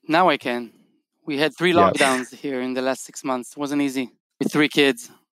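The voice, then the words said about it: Israeli accent. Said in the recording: “where the accent is from ... you're in Tel Aviv”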